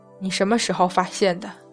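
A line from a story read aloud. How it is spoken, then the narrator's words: Calm, steady. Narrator (Chinese): 杨戬的声音还是很沉静，没有丝毫紊乱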